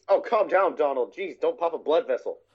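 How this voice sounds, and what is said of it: Goofy impression. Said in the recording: “doing the voices of Goofy and Donald ... the Goofy, the cadence, is really hot, really, really hard to do ... think like a stereotypical hillbilly at times ... A little bit of Bill Clinton.”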